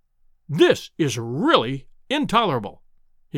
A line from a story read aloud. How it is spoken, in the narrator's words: he cried